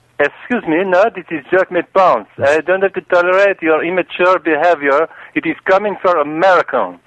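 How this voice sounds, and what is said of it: Strong foreign accent. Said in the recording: “in America we don't have that kind of accent.”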